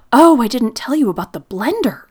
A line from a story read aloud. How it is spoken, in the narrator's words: exclaimed suddenly